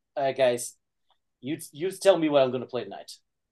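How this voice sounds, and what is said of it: Imitates another person's voice. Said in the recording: “the artist handing us a pen and a paper and going... I don't know if that was a good impression”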